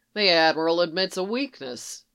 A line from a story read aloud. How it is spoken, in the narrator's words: Eli said dryly